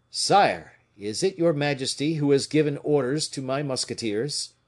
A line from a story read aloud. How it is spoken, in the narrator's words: D'Artagnan, pale and in evidently bad humor, cried to the king